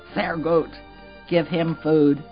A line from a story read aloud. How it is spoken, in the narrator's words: the commandant growled